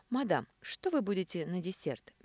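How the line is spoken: Soft question. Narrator (Russian): мягко спросил метрдотель

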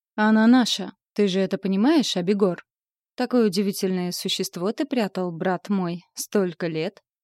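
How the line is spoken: Purred admiringly. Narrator (Russian): Восхищенно промурлыкал тот, кого отец называл Асмодеем

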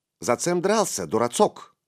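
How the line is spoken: Plain. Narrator (Russian): спросил он

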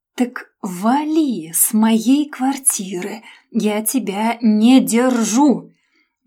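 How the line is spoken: Through teeth, syllable by syllable. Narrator (Russian): Процедила по слогам

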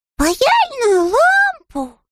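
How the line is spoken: Exclamation. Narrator (Russian): воскликнул Паддингтон

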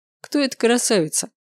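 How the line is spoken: Mocking question. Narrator (Russian): Насмешливо поинтересовался Максимилиан

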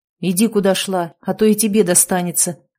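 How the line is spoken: Angry growl. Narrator (Russian): Зло рыкнул один из хулиганов

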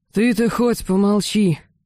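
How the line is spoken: Heavy sigh. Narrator (Russian): тяжело вздохнул командир

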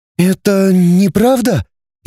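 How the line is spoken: Frightened, bewildered. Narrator (Russian): испуганно-растерянно проговорила Светлана

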